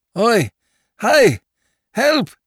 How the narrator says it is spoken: said Lord Peter, shouting lustily

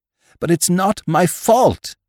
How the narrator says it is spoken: she cried

